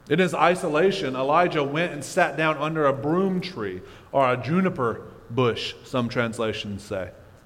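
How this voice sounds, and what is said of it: Mississippi accent. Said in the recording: “Mississippi really makes it difficult. The Mississippi accent, man, it's tough for some of these words.”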